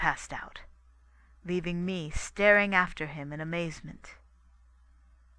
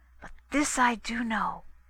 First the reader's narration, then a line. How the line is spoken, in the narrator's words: he half whispered